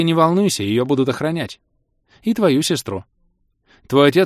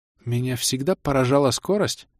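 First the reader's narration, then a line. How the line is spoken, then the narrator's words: Amazed mutter. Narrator (Russian): изумленно пробормотала синьорита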